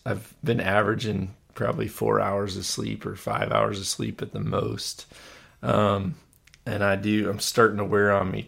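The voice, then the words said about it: Slightly hoarse voice. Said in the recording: “you hear I'm a little bit hoarse.”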